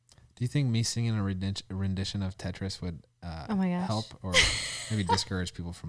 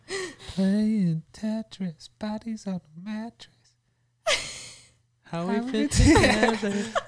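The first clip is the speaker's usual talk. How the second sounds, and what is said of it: Soft falsetto singing. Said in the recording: “That was soft. That was my falsetto.”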